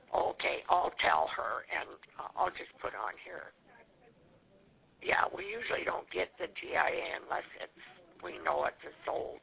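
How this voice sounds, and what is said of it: Hoarse, fading voice. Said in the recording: “I'm losing my voice, I think.”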